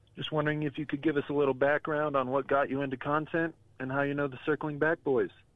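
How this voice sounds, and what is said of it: Smooth radio announcer voice. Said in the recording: “you have a phenomenal radio voice. It was very, very great.”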